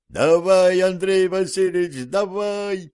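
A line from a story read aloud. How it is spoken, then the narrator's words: Servants yelling over fire. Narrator (Russian): перекрикивая треск пожара, завопили холопы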